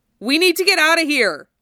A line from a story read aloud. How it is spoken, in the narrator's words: Zack shouted